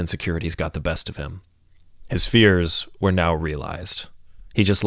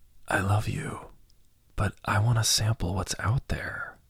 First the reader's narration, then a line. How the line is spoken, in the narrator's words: Lucas whispered softly